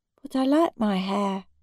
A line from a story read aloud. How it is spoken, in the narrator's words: he said feebly